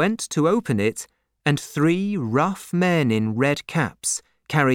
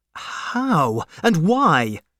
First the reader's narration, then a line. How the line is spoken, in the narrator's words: cried Darnay